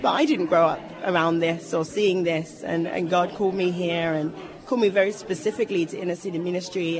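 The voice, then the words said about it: English accent. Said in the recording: “I'm from a small town in England ... not placing the accent”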